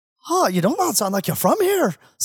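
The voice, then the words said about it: Poor put-on Irish accent. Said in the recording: “this is a terrible Irish accent”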